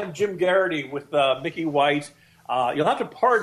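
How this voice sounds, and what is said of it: Usual voice. Nothing is said of it.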